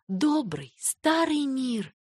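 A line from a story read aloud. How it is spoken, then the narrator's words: Whisper. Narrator (Russian): прошептала она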